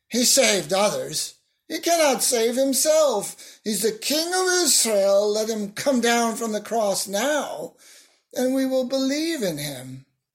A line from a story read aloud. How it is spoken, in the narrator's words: the chief priests also, along with the scribes and elders, were mocking him, saying